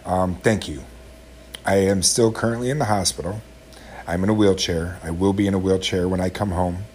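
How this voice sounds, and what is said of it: Emotional, choked-up voice. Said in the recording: “I'm kind of emotional right now. You maybe hear it in my voice.”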